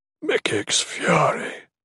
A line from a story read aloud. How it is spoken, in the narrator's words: Torbrand swore quietly